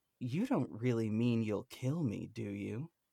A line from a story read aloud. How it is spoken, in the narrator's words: Juror 8 calmly retorts